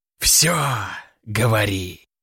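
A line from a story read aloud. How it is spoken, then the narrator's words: Hiss. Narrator (Russian): прошипел Заратарос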